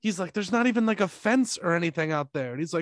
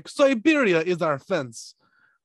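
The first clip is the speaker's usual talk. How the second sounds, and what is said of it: Bad put-on Russian accent. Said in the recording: “That's a really bad Russian accent.”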